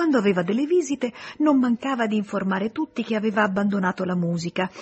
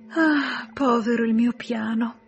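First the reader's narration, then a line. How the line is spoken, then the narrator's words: Sighing. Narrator (Italian): sospirava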